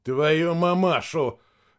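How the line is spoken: Gasped. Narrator (Russian): выдохнул капитан

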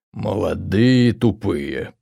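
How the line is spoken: Growl. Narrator (Russian): прорычал Росс

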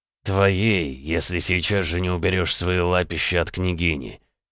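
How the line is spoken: Smiling growl. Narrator (Russian): Мило улыбаясь, прорычал Ксандр

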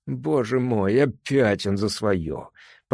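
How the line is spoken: Groan. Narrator (Russian): простонал я

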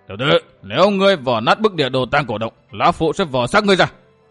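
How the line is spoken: Harsh shout. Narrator (Vietnamese): Miêu Sơn Nhất Quái quát

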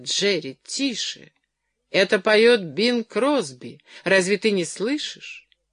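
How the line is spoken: Exclaimed. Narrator (Russian): Наконец она воскликнула

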